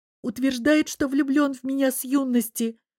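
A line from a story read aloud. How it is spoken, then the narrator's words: Hopeless sob. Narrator (Russian): всхлипнула обреченно Лиза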